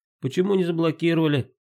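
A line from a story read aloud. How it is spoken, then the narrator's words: Frightened shout. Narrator (Russian): испуганным голосом крикнула Оксана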